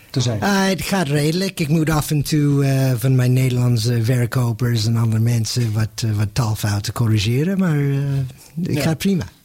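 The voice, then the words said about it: Non-native accent in Dutch. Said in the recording (Dutch): “Mijn accent, dat hoor je, dat raak ik niet kwijt.”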